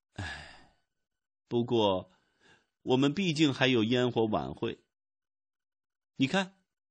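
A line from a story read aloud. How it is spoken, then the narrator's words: Sighing. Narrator (Chinese): 高特弗里德叹了口气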